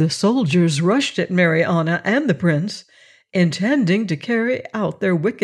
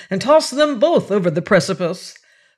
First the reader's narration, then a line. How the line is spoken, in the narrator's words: cried he